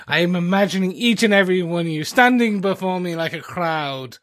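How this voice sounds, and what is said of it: Put-on Shakespearean British accent, unconvincing. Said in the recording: “my accent will get worse ... I was doing a great British accent. Very Shakespearean, if you will ... that was British. ... That wasn't even a little low British.”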